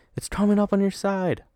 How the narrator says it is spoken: my brother cried

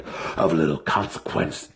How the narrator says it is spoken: Ulton snarled

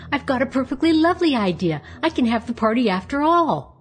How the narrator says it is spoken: she cried

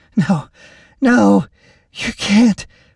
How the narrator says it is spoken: Lacie protested weakly

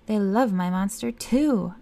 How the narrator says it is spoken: I roared

